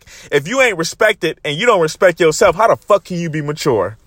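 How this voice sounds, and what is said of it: Yelling, loud passionate speech. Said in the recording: “if I'm yelling in the phone ... I'm passionate about this shit”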